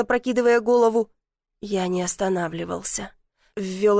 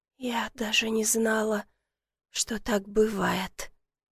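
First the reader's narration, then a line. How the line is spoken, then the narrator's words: Trembling whisper. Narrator (Russian): прошептала дрожащим голосом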